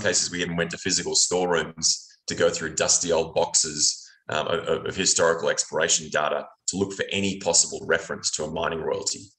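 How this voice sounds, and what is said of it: Australian accent. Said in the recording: “That's a good Australian accent there, as we said that you are originally from Australia.”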